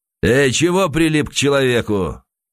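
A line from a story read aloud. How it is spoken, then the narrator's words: Hoarse shout. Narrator (Russian): хрипло крикнул кто-то за спиной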